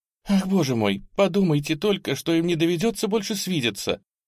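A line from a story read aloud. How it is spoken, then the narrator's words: Sobbing exclamation. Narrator (Russian): она принялась рыдать еще сильнее прежнего, воскликнула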